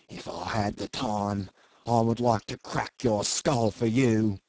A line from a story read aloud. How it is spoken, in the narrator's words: said Jim savagely